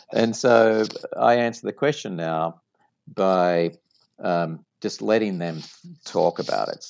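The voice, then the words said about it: Distinctive foreign accent. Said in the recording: “they hear my accent ... your accent is so great”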